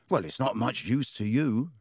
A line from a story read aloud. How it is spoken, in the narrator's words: said Ron